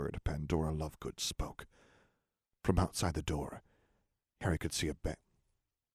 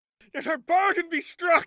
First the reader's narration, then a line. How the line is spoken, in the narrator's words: Pandora shouted over the deafening, angry hum